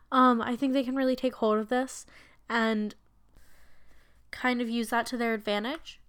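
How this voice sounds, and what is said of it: Hoarse, fading voice. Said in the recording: “Oh, I'm losing my voice again.”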